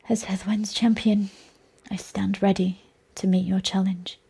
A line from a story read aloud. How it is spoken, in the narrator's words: whispered